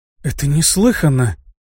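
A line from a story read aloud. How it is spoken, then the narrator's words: Very quiet. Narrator (Russian): сказала она так тихо, что ее услышали только Арто и Беллами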